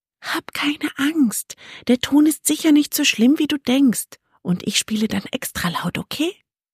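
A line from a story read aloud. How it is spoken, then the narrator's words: Whispering. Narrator (German): Fiona flüsterte ihm zu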